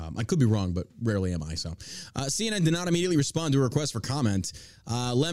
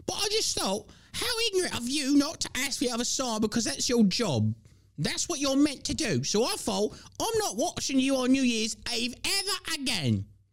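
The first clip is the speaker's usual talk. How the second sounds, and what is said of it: Imitates another person's voice. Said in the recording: “I think that was a pretty good impersonation.”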